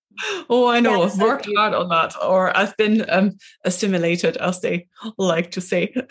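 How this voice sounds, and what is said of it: Slight Scottish accent. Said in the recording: “I could listen to that accent all day as well. I love it. I could just hear that little bit of the Scottish coming through.”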